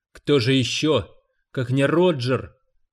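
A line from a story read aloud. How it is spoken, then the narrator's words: Fat man moaning. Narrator (Russian): простонал из своего ленд-ровера толстый любитель Кегельбана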